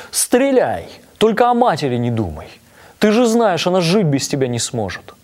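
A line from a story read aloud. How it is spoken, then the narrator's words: Shouted. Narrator (Russian): крикнул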